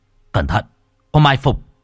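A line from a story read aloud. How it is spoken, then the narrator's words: Shouted warning. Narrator (Vietnamese): Hoàng Kính quát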